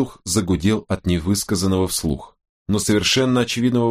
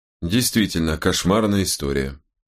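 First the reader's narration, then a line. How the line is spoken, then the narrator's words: Indifferent tone. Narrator (Russian): подтвердил безразличным тоном Уин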